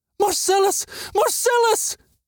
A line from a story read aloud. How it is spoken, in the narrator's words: Bizjana screamed